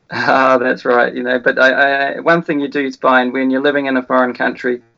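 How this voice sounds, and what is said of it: New Zealand accent. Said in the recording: “the first Kiwi ... the funny accent ... you haven't lost it ... You tend to maintain the accent”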